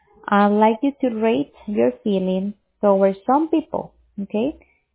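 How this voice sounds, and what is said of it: Hard-to-understand foreign accent. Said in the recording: “I'm again having trouble understanding your accent.”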